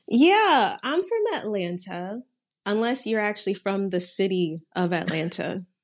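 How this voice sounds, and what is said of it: American accent. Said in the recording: “they can tell from your accent that you are American”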